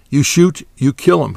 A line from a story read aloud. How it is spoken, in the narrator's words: said calmly